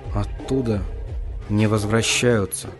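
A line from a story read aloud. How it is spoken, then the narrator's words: Quiet piper. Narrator (Russian): негромко сказал дудочник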